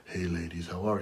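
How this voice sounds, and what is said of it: Deep, low, smooth radio DJ voice. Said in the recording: “that real deep radio voice ... you just turn up your mic real low ... the quiet storm”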